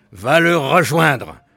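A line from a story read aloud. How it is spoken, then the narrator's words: Screaming assassin. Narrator (French): hurla un autre assassin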